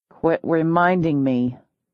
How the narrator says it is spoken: I growled

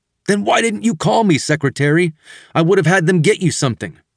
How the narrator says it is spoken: he shouted

